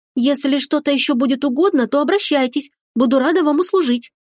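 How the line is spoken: Young girl's timid babble. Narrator (Russian): пролепетало юное создание

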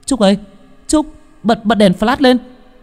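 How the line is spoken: Shouting. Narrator (Vietnamese): Tôi hét lên

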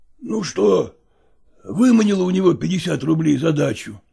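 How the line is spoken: Hoarse voice. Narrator (Russian): спросил он сиповатым голосом

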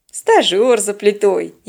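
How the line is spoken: Snide remark. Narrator (Russian): ехидно сообщил Теодор

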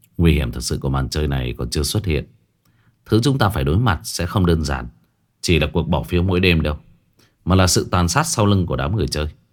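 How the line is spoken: Lowered voice. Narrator (Vietnamese): Phong Đình mới hạ giọng

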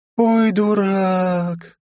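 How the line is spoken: Drawn-out, disappointed. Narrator (Russian): протянула она с нотками разочарования

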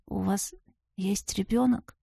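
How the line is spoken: Sleepy grumble. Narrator (Russian): сонно буркнула я

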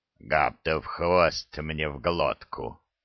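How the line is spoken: Stunned mutter. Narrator (Russian): ошарашенно пробурчал Храд

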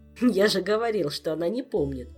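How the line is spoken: Laughing. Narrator (Russian): засмеялся король

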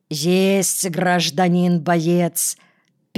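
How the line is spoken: Sighing. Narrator (Russian): Петраков вздохнул

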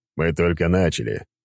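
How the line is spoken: Smirking snort. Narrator (Russian): хмыкнул я

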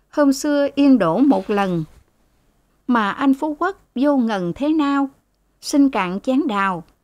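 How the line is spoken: Smiling, sing-song raised voice. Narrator (Vietnamese): Cô Nguyệt mỉm cười lên giọng

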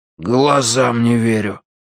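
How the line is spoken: Breathed out in disbelief. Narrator (Russian): выдохнул Виталя

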